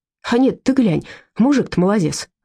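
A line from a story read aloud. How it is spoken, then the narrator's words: Exclaimed. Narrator (Russian): воскликнул Курищев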